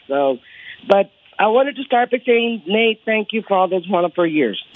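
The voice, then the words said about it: Voice slightly off from illness. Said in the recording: “I'm a little under the weather, so my voice might sound a little off.”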